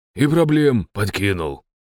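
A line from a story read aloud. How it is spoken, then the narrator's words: Grumbling. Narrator (Russian): пробурчал Добрыня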